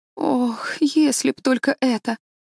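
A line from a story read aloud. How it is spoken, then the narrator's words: Sigh. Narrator (Russian): вздохнула Энн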